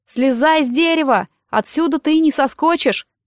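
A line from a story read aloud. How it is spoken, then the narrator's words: Shout from below. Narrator (Russian): крикнул ему снизу Нед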